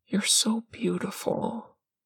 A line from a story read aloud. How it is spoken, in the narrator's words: Parm whispers